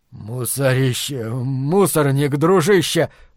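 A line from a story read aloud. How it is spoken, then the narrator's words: Wheezing. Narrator (Russian): просипел он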